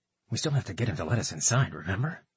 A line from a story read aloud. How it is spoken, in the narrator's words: in a whisper that he hoped only Katka could hear